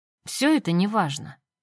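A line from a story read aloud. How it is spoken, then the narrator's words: Irritated dismissal. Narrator (Russian): раздраженно отмахнулась она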